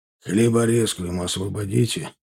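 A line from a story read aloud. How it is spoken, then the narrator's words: Gloomy. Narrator (Russian): мрачно сказал Косой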